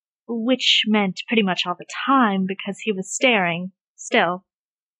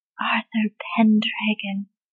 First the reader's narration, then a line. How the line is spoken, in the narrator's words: the boy whispered, dimples appearing in his cheeks as he smiled